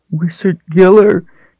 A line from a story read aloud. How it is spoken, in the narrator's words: she whined, fully expecting to be struck dead any second